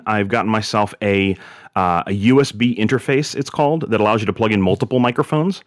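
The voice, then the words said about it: Naturally deep radio voice. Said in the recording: “your voice sound so awesome, or is it just naturally that deep radio voice? ... This is all natural”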